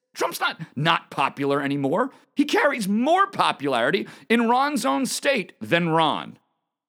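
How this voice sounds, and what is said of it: Yelling, emphatic delivery. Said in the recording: “sorry I'm yelling. I'm emphatic.”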